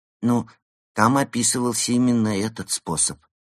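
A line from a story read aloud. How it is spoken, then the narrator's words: Timid. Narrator (Russian): робко сказал он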